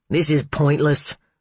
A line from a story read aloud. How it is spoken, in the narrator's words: Steiger grumbled